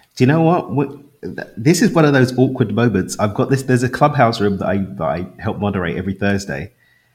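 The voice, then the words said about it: London accent. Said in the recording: “That's not a Mexican accent. ... I can tell a London accent from a Mexican accent.”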